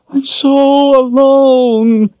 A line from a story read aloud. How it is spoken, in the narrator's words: she wailed